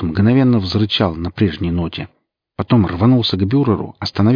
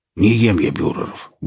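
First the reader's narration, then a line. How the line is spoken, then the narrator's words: Gruff mutter. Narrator (Russian): буркнул Велес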